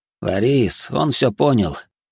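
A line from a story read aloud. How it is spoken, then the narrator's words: Stepfather sighing. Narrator (Russian): вздохнул отчим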